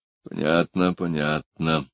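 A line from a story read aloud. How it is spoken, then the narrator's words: Muttered. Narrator (Russian): пробормотал Гуров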